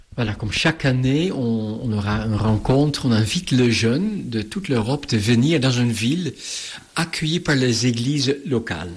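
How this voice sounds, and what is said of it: Slight Dutch accent in French. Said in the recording (French): “à votre accent que vous étiez néerlandais ... vous parlez un excellent français, mais un petit accent”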